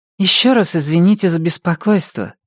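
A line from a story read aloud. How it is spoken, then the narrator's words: Conciliatory tone. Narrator (Russian): примирительным тоном сказала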